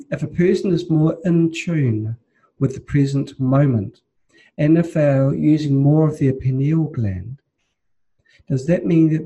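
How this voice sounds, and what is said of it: Speaks with a noticeable accent. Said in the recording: “because of my accent”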